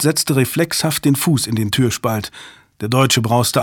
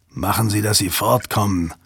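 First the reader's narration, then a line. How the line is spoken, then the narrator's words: Growling. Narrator (German): knurrte der Deutsche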